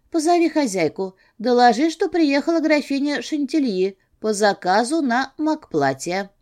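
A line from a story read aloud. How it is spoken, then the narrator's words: Pleasant melodious command. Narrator (Russian): приказала приятным мелодичным голосом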